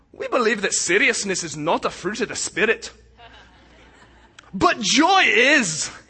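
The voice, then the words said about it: Weak put-on Irish accent. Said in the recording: “my lame Irish accent”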